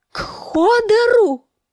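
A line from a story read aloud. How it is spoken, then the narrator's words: Screaming. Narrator (Russian): завопила Санса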